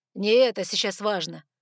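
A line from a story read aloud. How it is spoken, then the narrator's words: Growling. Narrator (Russian): рыкнул Саргон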